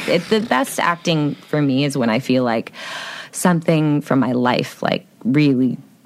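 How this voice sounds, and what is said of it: Heavy vocal fry. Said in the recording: “She's a little vocal fry there. ... Little? It's kind of up there with the Lord of all improv.”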